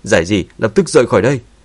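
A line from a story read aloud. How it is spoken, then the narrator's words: Urgent loud shout. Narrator (Vietnamese): Sắc mặt của Dương Chấn thay đổi, vội vàng hét lớn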